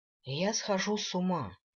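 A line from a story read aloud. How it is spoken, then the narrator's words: Sad. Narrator (Russian): грустно сказал он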